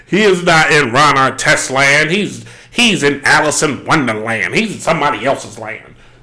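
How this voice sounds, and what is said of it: Imitates another person's voice. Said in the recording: “I sound like Cat Williams ... my Cat Williams impression.”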